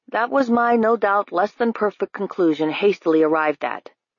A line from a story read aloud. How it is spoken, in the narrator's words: Judge Fang said